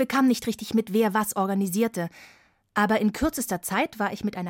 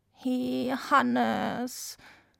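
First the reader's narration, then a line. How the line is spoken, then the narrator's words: Reproachful croak. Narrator (German): krächzte sie vorwurfsvoll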